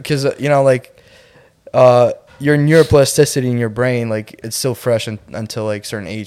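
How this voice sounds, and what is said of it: Slight Russian accent. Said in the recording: “I do have a little slight accent ... Straight Russian”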